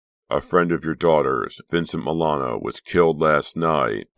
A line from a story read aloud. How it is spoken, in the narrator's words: Detective Bender stated in a flat, emotionless tone